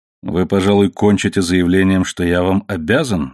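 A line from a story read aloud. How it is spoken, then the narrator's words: Plain. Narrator (Russian): сказал он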